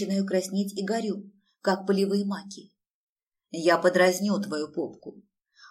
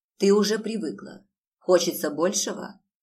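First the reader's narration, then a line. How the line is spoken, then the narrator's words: Hoarse question. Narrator (Russian): спрашивает хрипло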